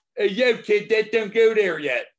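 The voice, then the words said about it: Put-on Philadelphia accent. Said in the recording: “We'll examine the accent.”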